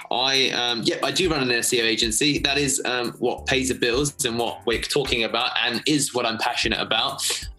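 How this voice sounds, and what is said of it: London English accent. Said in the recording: “you can hear by the accent, of course. I'm from London, England.”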